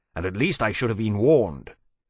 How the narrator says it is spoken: Temeraire said rather bitterly

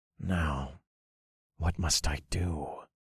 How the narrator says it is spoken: I whispered

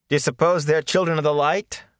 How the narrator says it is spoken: Matt asked in a loud voice

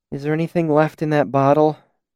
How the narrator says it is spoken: She asked wearily

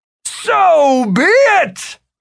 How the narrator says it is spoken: Martin bellowed

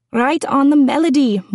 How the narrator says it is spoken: Morky yells

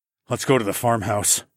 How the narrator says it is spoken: muttered

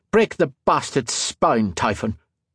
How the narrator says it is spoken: Lime spat

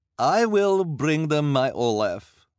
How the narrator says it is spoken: Madame Lulu said in her disguised accent

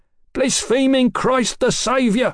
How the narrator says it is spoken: the tall man screeched, his voice rising

